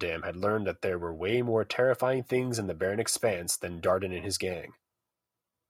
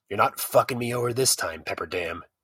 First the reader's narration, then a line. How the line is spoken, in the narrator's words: he growled